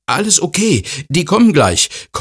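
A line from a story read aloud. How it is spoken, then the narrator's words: Panting. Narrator (German): keucht er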